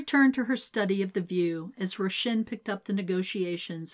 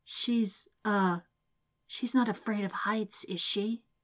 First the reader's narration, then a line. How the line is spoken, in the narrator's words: stage whispered